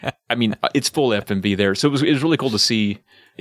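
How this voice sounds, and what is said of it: Usual voice. Nothing is said of it.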